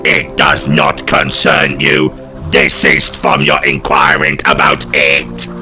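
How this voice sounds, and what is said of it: Funny metal-man character voice. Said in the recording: “You have a funny voice, Mr. Metal Man.”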